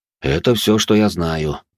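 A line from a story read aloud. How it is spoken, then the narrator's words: Calm reply. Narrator (Russian): спокойно ответил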